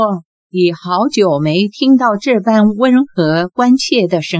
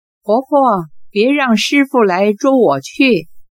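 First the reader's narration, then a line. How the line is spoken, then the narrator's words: Warm pleading. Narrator (Chinese): 杨过 顿时心中感到一阵温暖，求道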